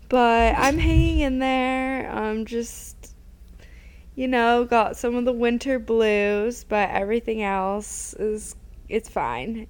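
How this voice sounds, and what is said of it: Sick, rough-sounding voice. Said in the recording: “I'm, like, sick again. ... my voice sounds disgusting”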